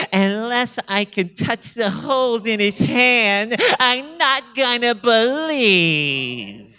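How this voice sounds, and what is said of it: Whiny put-on voice. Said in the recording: “Doesn't that just sound like a whiner? ... that's my whiny voice. That's the best I can muster up.”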